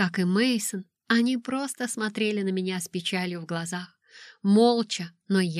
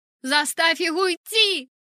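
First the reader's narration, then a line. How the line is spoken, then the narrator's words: Shout. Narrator (Russian): закричала я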